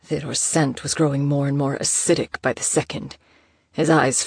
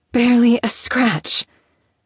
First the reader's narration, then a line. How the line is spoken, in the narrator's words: she repeated, her voice sounding numb with shock